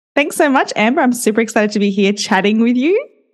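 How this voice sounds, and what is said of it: Australian accent. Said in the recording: “your accent ... as an Australian, I kind of feel like our accent can sometimes be a little bit harsh ... I am an Aussie”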